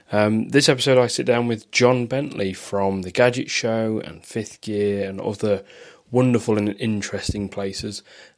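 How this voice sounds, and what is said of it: Voice sounds like he has a cold. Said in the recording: “you might be able to tell from my voice I've got a bit of a cold”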